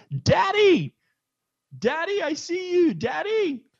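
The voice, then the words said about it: Yelling a child's call. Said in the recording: “She's yelling from the top of the theater”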